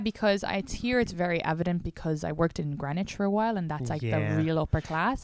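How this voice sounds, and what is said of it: Irish accent, between Dublin and country. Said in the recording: “Irish people can message me and correct me ... my accent is kind of like an in-between, like slightly country sometimes, but slightly Dublin”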